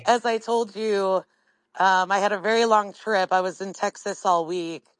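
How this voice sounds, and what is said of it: Hoarse voice. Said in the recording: “I apologize for having a really hoarse voice.”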